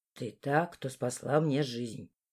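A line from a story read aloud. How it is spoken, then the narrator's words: Quiet. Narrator (Russian): тихо сказал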